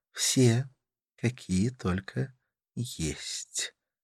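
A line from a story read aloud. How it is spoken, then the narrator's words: Soft reply. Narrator (Russian): ответила она, мягко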